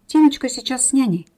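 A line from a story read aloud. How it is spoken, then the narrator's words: Babbling, justifying herself. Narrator (Russian): как бы оправдываясь, пролепетала коварная обманщица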